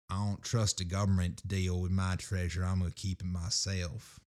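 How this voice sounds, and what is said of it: Gruff southern accent. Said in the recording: “Ron Swanson, if he had a southern accent.”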